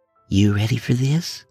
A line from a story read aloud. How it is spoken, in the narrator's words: Connie whispered to Bill